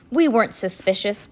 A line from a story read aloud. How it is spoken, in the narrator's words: Klaus exclaimed